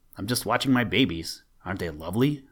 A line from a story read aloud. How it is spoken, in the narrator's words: said he